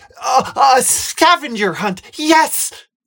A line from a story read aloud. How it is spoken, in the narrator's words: Sophia exclaims